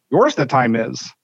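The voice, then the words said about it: Bad Yoda-style impression of another person. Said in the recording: “my bad Yoda impression for Andy Reid”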